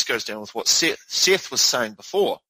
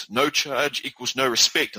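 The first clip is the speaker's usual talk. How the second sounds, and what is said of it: Put-on northern English accent. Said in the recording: “in a northern accent”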